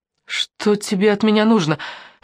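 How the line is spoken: Frightened question. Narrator (Russian): испуганно спросила Алена

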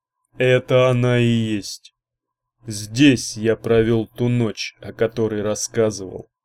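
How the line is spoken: Gloomy. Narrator (Russian): мрачно произнес Мордоний

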